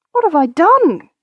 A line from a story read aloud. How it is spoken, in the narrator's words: cried Ursula